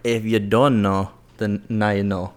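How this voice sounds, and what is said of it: Put-on accent imitating another person. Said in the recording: “Why the accent, though? ... that's Drake accent.”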